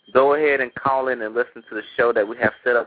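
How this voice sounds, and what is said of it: Country accent. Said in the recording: “my little country accent”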